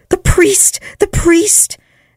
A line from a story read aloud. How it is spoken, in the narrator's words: all screamed